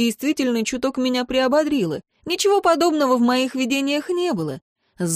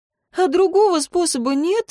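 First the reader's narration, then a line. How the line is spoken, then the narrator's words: Whining. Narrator (Russian): заскулила я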